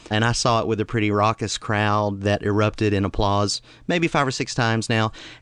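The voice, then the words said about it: Southeastern US accent. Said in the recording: “my not-so-subtle accent, I'm from a part of the United States that's a little bit southeastern”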